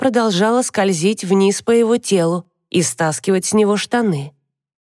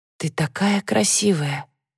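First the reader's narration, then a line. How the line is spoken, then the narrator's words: Quiet, hoarse, involuntary. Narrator (Russian): Слова прозвучали тихо и хрипло, как будто нечаянно соскользнули с языка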